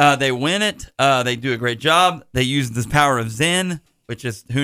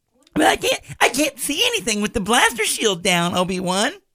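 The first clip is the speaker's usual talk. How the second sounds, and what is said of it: Impression of Luke Skywalker's voice. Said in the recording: “That's my Luke impression.”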